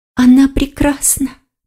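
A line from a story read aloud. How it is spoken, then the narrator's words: Fox whispering. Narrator (Russian): прошептала лиса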